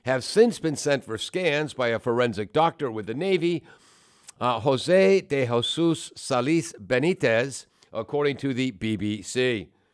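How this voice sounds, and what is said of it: Put-on Spanish accent. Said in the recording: “Don't do Spanish accents. It's racist. ... If the subject is Spanish, I'm doing the Spanish accent.”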